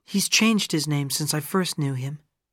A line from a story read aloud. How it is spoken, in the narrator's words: she replied